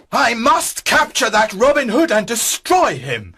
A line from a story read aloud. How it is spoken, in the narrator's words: shouted the sheriff